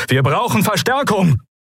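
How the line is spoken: Called out. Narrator (German): rief Telios

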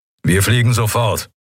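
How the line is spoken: Growling. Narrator (German): knurrte er

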